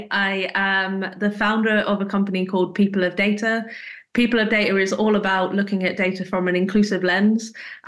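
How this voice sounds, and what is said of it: British accent. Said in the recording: “My voice is quite different from everyone else. As you can tell, I'm from the UK.”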